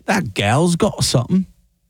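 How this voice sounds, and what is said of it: Put-on English accent. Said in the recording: “I'm not sure that was his exact accent”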